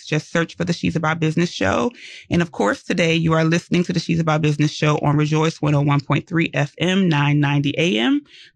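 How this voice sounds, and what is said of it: Very fast, excited speech. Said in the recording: “I was talking really fast because I'm really excited ... You sound excited. ... That was a lot to say.”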